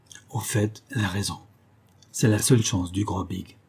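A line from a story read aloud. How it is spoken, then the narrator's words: Murmur. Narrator (French): murmura-t-il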